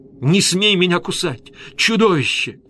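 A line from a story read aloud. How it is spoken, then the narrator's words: Screaming. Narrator (Russian): кричала она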